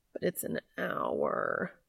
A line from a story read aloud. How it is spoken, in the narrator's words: Cass whined